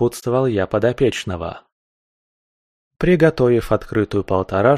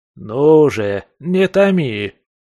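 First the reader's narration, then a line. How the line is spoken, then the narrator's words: Impatient indignant skunk. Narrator (Russian): Возмутился из-за затянувшейся паузы скунс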